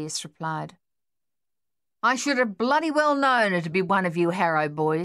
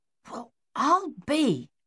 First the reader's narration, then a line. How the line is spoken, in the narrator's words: Captain Egan muttered